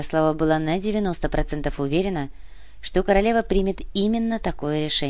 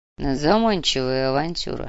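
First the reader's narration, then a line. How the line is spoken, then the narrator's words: Grumbled. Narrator (Russian): проворчал барон Мечислав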